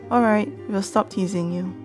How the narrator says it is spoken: Beth said

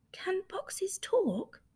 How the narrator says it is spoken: whispered Rabbit

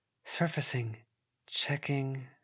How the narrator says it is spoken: whispered

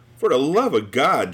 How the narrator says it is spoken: Junior pleaded

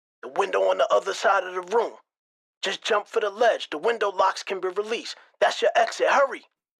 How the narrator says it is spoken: the voice frantically answered

